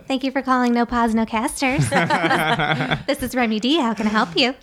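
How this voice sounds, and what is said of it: Polished customer service phone voice. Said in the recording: “I could switch to my customer service voice.”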